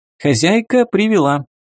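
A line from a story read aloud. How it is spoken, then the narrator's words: Brisk cheerful report. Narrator (Russian): бодро доложила вернувшаяся рабыня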